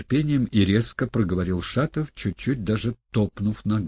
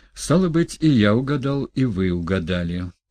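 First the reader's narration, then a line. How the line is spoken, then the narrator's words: Calm tone. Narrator (Russian): спокойным тоном продолжал Ставрогин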